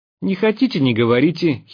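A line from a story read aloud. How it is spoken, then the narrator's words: Hysterical giggle. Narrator (Russian): хихикнул он истерично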